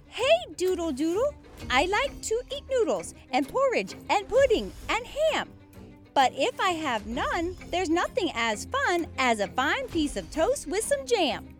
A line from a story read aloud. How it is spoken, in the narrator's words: In a small, squeaky voice, he began to recite